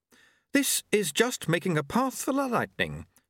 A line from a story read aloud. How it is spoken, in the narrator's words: said Jeremy happily